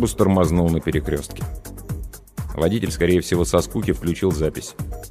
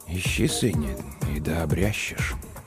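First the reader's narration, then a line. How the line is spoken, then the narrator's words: Very quiet, to himself. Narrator (Russian): Он ответил тихо-тихо, словно самому себе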